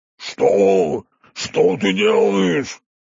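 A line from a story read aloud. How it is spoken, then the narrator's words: Shouting. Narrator (Russian): прокричал он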